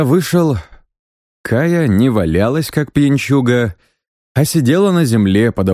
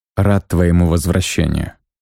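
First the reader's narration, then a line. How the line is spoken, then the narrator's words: Quiet. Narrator (Russian): сказал я тихо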